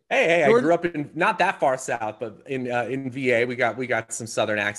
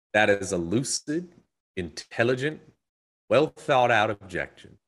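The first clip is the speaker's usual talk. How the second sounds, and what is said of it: Put-on Southern drawl. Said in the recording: “I'll try to do my best Southern drawl too ... That was such a good accent ... that was so good ... That was a good accent ... that was straight like well Southern done. That sounded just like him.”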